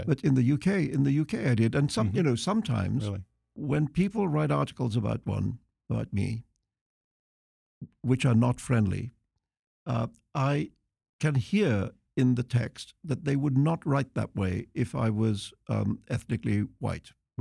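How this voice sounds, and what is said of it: Refined British accent. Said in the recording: “you have this very civilized British accent”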